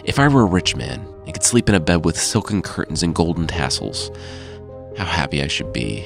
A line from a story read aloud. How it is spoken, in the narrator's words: muttered to himself